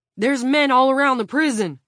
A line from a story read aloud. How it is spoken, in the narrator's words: Frank shouted